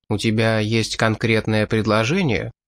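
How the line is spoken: Plain question. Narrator (Russian): спросил японец

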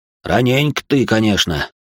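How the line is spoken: Grumbled mutter. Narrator (Russian): буркнув

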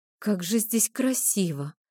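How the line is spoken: Breathy, trying to ease tension. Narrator (Russian): выдохнула, стремясь хоть как-то разрядить это странное напряжение

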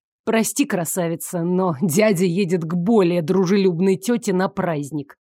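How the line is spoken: Slightly rude, trying polite. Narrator (Russian): Немного грубо ответил Игорь, хотя старался быть вежливым

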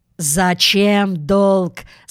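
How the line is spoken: Plain. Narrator (Russian): сказал интендант

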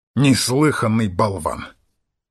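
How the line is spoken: Angry scoff. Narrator (Russian): сердито хмыкнул Холмс

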